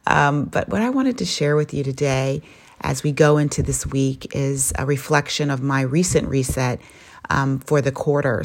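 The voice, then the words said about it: Foggy early-morning voice. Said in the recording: “my audio voice, my reset voice, because this is the first part of the day ... excuse me if my voice is a little foggy”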